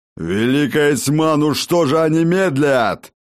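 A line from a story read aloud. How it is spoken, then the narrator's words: Growled. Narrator (Russian): прорычал Ракот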